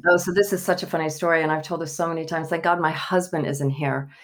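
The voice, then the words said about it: Southern American accent. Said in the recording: “I'm a Southern girl. ... I love the accent so much.”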